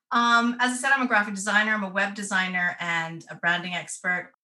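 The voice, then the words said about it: Canadian accent softened by England. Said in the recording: “accent when she starts to talk ... my accent will confuse you because I was born and raised in Canada ... I left in 2002”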